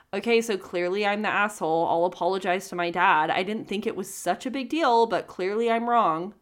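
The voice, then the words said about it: Snotty, insincere mocking voice. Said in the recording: “I'm going to say it in a snotty voice because I can't help but read it in a snotty voice.”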